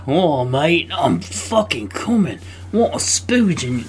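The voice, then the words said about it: Bad Australian accent drifting cockney. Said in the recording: “that was a bad, bad accent ... That was pretty bad ... No, that went totally cockney. I don't do Australian.”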